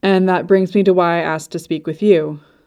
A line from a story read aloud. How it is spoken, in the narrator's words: said Lovelace